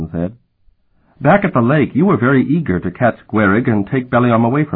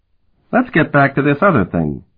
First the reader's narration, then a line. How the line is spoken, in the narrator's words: Calton said impatiently